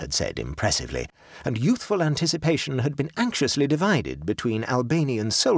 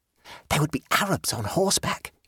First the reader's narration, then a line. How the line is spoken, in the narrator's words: he whispered